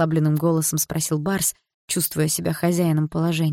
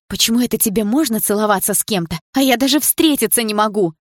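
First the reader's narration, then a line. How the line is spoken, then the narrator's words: Shouted. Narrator (Russian): закричала я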